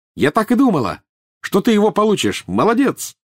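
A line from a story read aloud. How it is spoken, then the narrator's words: Shout across room. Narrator (Russian): крикнула она через всю комнату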